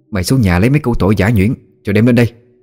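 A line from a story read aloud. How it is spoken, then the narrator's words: Shouted. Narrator (Vietnamese): Cô Hiền quát chú Hiến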